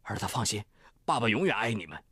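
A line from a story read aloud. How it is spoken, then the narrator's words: Choked up with emotion. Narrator (Chinese): 汪海源 哽咽着说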